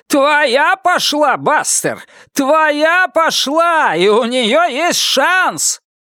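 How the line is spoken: Crowd yelling. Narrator (Russian): толпа завопила

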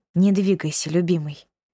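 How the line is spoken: Soft, gentle. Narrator (Russian): мягко

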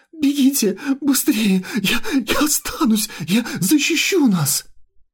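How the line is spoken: Sobbing wail. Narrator (Russian): зарыдав еще сильнее, он, всхлипывая между рыданиями, завопил

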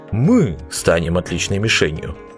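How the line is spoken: Snorted. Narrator (Russian): фыркнул он

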